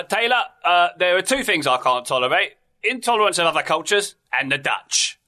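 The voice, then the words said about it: Imitates another person's voice. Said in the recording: “my Michael Caine impression ... I feel better about that impression because I knew it was Michael Caine. Well done”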